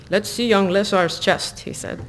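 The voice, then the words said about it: Hokey put-on Russian accent. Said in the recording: “I should be in like a Russian accent, but I can't really do it unless it's like really hokey.”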